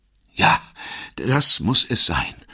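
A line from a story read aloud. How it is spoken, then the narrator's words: Relieved sigh. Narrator (German): seufzte Blankard und wirkte erleichtert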